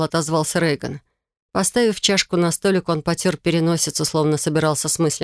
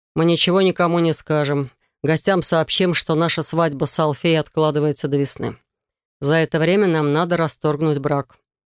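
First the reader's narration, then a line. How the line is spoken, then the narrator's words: Plain. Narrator (Russian): ответил князь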